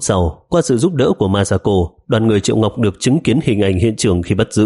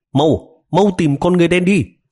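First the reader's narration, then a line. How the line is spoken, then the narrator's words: Loud urgent reminder. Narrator (Vietnamese): Triệu Ngọc lớn tiếng nhắc nhở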